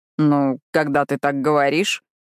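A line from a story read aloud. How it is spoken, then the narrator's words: Growling. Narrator (Russian): Зарычав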